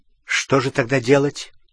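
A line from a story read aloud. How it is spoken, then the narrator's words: Angry question. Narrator (Russian): сердито спросил Гарри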